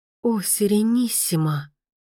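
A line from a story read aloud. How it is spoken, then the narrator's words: Murmur through fingers. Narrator (Russian): пробормотала Мия, прикладывая пальцы к губам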